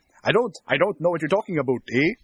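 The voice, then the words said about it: Put-on Canadian accent. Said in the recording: “my Canadian impression ... It's very good. Very good.”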